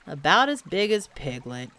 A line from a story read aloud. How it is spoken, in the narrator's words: he said to himself sadly